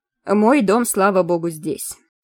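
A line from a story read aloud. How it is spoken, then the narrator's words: Grumbled. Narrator (Russian): пробурчал Финтон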